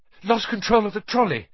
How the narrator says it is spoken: Harry gasped, clutching his ribs

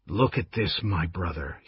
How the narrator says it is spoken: he said at last, his voice soft, awed

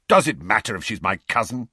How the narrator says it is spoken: snapped Sirius

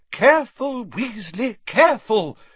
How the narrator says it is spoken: cried Professor Sprout

